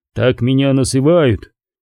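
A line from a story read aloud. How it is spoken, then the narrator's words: Quiet exhausted voice. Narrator (Russian): тихим, измученным голосом ответил Корум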